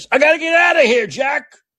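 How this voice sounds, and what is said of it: Imitates another person's voice, raised. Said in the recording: “I'll be like Biden. I'll raise my voice.”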